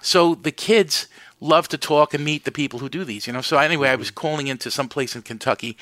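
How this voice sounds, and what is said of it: New York accent. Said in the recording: “the kids are hysterical laughing because of my accent ... could hear it in a New York accent.”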